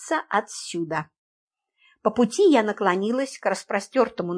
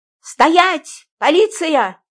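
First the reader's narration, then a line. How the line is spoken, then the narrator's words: Excited shout. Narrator (Russian): азартно крикнула я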